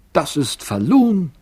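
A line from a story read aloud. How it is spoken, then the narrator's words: Calling out. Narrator (German): rief Elis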